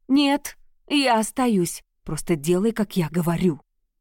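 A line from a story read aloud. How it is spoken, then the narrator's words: Hissed. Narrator (Russian): прошипел он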